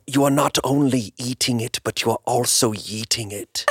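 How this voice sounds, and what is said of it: Werner Herzog impression. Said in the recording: “that's a good impression, dude ... Werner Herzog”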